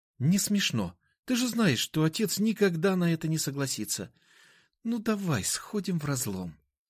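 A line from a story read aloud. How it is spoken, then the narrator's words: Gentle pleading. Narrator (Russian): ласково попросила она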